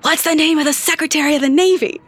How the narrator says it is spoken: loudly whispers

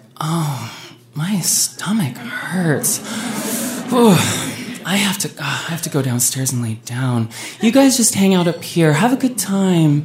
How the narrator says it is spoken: Heather groaned

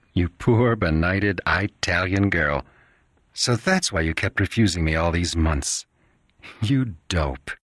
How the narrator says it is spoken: Jules laugh softly and say

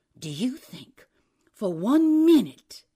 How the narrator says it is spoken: said angrily

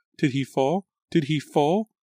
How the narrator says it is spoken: Liza repeated the question breathlessly, crazily

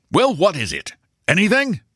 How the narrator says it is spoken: asked Maxwell sharply

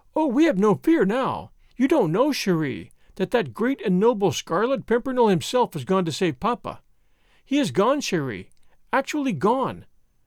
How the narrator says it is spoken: added Suzanne excitedly

